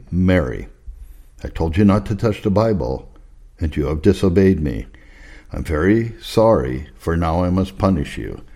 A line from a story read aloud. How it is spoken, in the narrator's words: says calmly